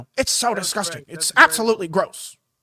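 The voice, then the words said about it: Imitates another person's voice. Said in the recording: “my best Ben Shapiro ... That's a great impression.”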